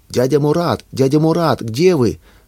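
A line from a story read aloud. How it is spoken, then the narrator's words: Boy shouting into darkness. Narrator (Russian): закричал мальчик в вечернюю мглу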